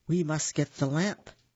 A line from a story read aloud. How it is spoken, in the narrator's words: said Aladdin